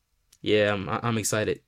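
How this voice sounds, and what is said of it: Sarcastic, insincere enthusiasm. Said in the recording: “I was being sarcastic there. I'm not excited.”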